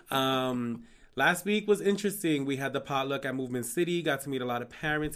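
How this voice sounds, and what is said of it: Raspy, sick-sounding voice. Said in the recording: “I got super sick. I'm still recovering. ... that's why I got my T-Boz raspy voice going on right now.”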